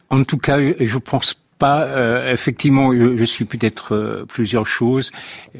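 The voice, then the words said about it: American accent speaking French. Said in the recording (French): “quiconque vous entend bien qu'il y a un accent ... américain”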